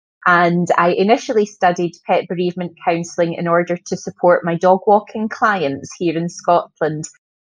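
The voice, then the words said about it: Scottish accent. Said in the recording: “in Glasgow, Scotland ... we find your accent quite charming ... I always forget that I've got an accent”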